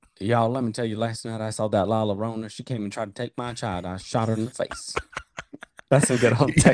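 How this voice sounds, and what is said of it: Usual voice. Nothing is said of it.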